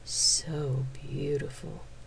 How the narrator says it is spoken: whispered

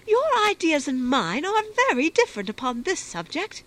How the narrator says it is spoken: replied Fanny indignantly

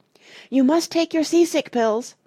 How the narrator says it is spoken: shouted Dulcibel suddenly

